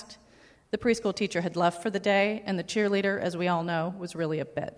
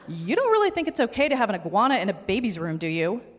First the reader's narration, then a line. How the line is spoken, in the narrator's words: My voice was rising in pitch with every syllable